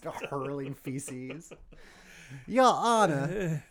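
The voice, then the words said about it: Southern genteel lawyer accent. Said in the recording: “Speaking a southern accent for some reason. Like a genteel lawyer.”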